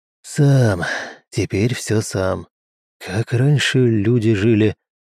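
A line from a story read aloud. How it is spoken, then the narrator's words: Sigh. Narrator (Russian): вздохнул Михеев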